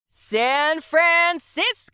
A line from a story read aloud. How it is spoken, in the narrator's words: the singer screamed into the microphone